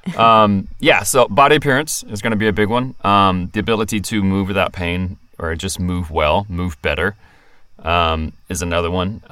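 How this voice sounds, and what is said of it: Non-local accent. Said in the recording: “not from here originally, if you can't tell from my accent.”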